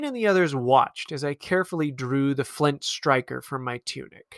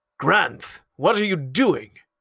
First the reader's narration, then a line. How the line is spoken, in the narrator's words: growled